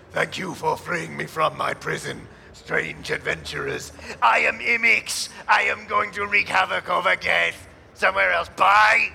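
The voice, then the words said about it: Very deep monster voice. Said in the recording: “in a very deep voice”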